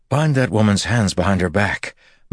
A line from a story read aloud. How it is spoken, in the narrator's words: Matt said, panting